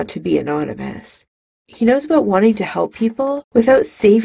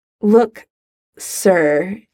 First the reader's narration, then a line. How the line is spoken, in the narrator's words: he stammers, formality unfamiliar in his mouth